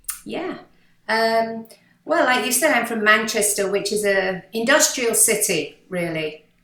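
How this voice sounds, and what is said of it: British northern Manchester accent. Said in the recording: “you don't have a Miami accent at all ... You have a British accent up north from Manchester”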